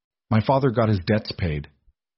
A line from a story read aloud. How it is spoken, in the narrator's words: Beatrice interrupted, her tone flat